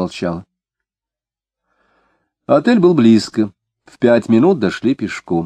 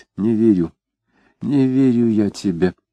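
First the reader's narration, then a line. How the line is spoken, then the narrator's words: Quiet speech. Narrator (Russian): тихо сказал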